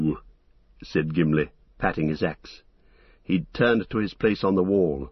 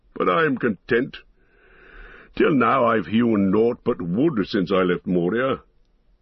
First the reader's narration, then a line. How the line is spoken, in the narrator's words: laughed the dwarf